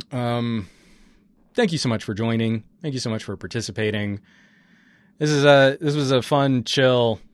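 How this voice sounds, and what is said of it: Rough, hoarse voice. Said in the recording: “My voice is getting real rough.”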